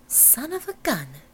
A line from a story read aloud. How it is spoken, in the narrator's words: breathed